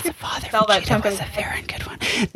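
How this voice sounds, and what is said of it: Very quiet ASMR whisper. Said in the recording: “ASMR voice? I'm gonna whisper very quietly.”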